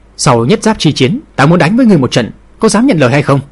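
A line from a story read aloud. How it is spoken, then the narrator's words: Sudden loud shout. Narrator (Vietnamese): Thủy Vô Ba đột nhiên cao giọng quát lớn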